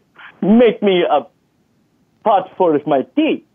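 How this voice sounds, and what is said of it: Put-on foreign accent. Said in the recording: “Saying it in a wrong accent”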